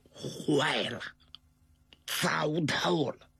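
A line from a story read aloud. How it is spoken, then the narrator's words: Lowered voice. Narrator (Chinese): 他压低声音跟他媳妇儿说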